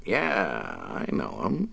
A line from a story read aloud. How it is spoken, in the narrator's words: Dave replied, his voice thick with contempt